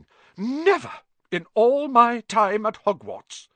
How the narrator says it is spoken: Professor McGonagall was almost speechless with shock

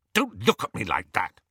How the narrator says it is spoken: he snapped at Hermione

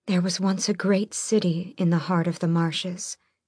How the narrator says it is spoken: Elena breathed

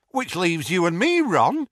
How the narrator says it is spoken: said Tonks brightly

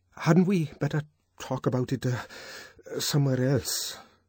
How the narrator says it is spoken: stammered, looking horribly uncomfortable

